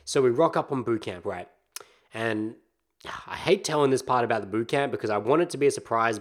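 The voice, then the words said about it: Slightly raspy, phlegmy voice. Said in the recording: “my voice is probably about 80, 85. Like, it's still a bit raspy. I've still got some phlegm in the back of the throat.”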